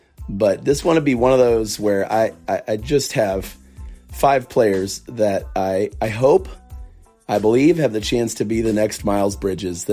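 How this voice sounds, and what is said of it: Weak, nearly lost voice. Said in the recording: “today I am operating on about 85%. You can tell my voice is barely here”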